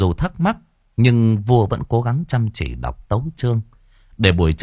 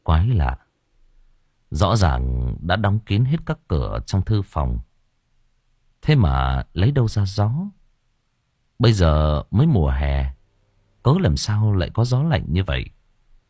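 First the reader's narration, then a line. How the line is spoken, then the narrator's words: Muttering. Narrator (Vietnamese): Ngài lẩm bẩm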